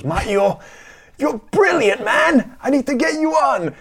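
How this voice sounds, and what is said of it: Imitates another person's voice. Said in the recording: “terrible impersonation”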